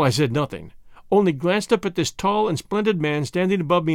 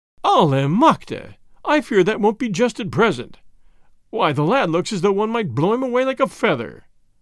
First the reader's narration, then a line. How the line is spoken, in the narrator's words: added with a laugh